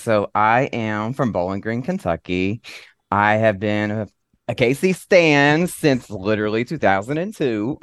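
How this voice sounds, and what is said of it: Country Kentucky accent. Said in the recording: “I love your accent. It's adorable ... I don't realize how country I sound”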